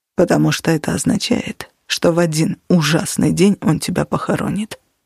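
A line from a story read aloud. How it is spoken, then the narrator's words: Plain. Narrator (Russian): ответил Костя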